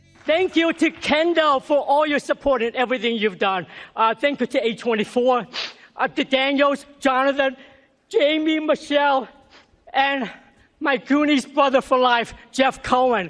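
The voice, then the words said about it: Speaks with a noticeable accent. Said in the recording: “Didn't lose his accent either.”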